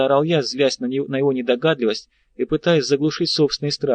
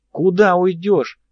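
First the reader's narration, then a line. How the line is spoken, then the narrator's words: Yelling. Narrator (Russian): даже заорал он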